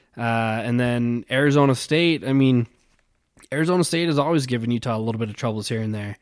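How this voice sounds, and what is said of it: Voice giving out, strained. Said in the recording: “keep losing my voice”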